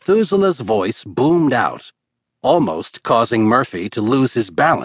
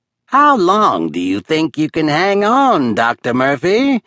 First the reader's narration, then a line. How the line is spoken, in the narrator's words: Methuselah called out, cackling